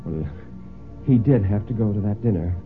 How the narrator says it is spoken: Mary said rather feebly

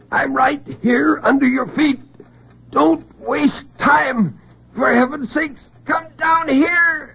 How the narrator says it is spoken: In terrible silence, he screamed

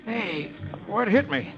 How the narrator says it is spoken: Roy, who has just regained consciousness, moans

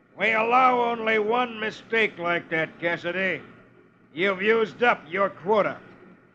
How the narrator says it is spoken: a tough-looking character who snarls

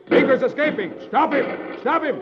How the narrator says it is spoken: Hoppy shouts

